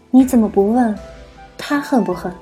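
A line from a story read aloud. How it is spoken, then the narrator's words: Arch smiling. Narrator (Chinese): 九姨扬眉笑道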